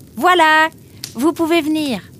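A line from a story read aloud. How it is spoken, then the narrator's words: Shouting toward another room. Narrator (French): cria Nemrod en direction de la cuisine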